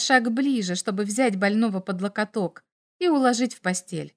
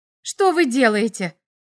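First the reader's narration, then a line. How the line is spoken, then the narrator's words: Exclamation. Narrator (Russian): воскликнула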